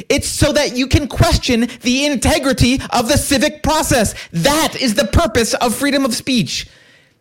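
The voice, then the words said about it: Yelling, loud emphatic speech. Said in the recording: “I'm yelling.”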